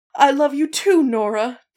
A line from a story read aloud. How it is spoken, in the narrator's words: Daniel cried